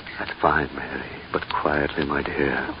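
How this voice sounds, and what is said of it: Whispering. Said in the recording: “Why the whisper?”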